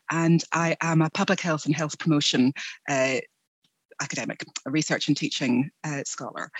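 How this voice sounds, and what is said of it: British accent. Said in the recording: “I am originally from the UK. You may be able to hear from my accent.”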